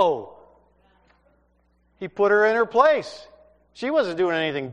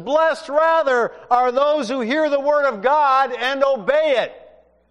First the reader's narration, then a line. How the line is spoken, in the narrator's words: he yells back and he says